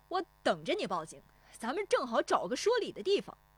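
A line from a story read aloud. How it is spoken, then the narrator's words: Defiant shout. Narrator (Chinese): 石丽华也不怯他，转身喊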